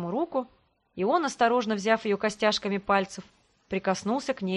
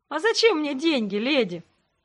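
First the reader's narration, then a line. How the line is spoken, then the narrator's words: Laughing. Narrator (Russian): рассмеялся он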